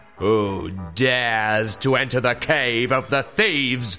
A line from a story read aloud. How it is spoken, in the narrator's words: boomed the voice of the wicked masked captain, the leader of the thieves